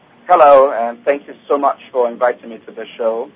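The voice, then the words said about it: Speaks with a noticeable accent. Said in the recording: “Lovely accent.”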